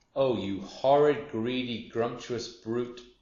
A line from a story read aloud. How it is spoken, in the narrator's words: cried Humpy Rumpy